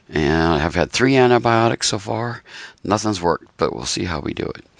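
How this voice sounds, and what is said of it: Slightly hoarse voice. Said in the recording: “my voice is not at the best right now. I'm a little hoarse”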